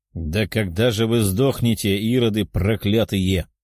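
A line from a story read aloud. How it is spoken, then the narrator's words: Growling retired soldier. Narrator (Russian): рычал военный в отставке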